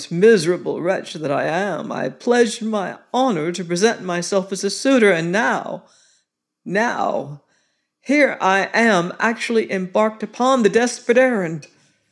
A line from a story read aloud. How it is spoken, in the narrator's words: added, with another of the hollow groans